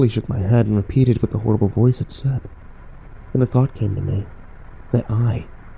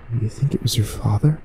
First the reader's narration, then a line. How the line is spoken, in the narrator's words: said in a wavering voice